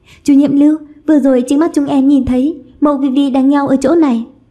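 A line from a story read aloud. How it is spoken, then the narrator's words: Flustered chorus of voices. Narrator (Vietnamese): đều rối rít chỉ vào Vivi nói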